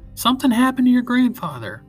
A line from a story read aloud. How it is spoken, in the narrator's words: Papa shouted in my ear